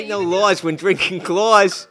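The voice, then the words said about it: Put-on American accent. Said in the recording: “try that in an American accent ... I'm doing like a very specific ... That's like um, Bugsy Malone”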